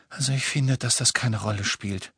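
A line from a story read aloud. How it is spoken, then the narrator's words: Sigh. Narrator (German): seufzte Hermine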